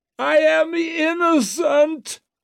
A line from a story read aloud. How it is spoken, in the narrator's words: shrieked Wetterlant in ringing tones